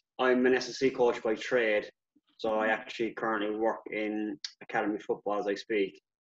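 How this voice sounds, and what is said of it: Irish accent. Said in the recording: “obviously you can hear the accent. I'm Irish born and bred”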